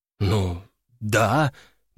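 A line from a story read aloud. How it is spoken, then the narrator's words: Forced-out words. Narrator (Russian): наконец выдавил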